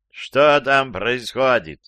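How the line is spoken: Loud question from upstairs. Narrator (Russian): громко спросил со второго этажа папа

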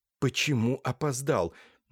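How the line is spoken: Displeased whisper. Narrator (Russian): недовольно прошептал Лаевский

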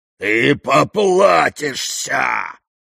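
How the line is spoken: Roaring. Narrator (Russian): проревел он

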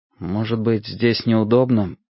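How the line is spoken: Mumble. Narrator (Russian): Я пробормотал

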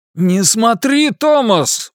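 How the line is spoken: Sudden shout. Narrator (Russian): вдруг прокричал отец

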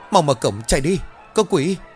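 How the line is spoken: Panicked loud shouting. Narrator (Vietnamese): Đám bệnh nhân hét lớn

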